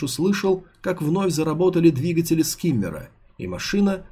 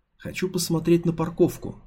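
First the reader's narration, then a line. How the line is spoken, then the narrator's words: Barely audible whisper. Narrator (Russian): прошептала еле слышно Санскиммер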